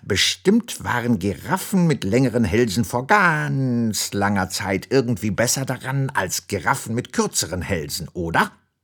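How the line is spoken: Croaking. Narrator (German): krächzt Zottel

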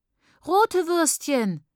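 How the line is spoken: Called out. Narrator (German): ruft

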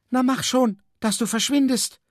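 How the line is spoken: Woman calling out. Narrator (German): rief die Frau der Wolke zu

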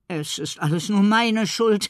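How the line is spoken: Stuttering. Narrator (German): stottert Hoppla

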